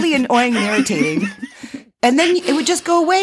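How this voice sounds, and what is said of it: Usual voice. Nothing is said of it.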